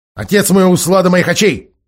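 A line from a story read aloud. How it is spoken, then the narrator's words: Very fast, very vicious. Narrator (Russian): начал молодой человек очень быстро и очень злобно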